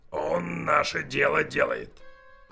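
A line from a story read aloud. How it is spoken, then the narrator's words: Hoarse rough worker. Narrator (Russian): хрипел краснорожий работяга со сломанным носом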